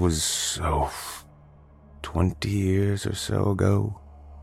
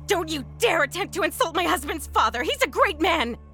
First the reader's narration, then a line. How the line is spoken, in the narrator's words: she shrieked, a look of pure, unhinged malevolence in her eyes